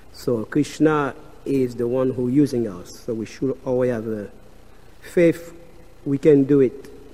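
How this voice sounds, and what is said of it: Strong French accent. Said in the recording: “bear my accent. I got a very strong French accent.”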